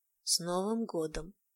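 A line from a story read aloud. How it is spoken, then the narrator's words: Hoarse whisper. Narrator (Russian): хрипло прошептал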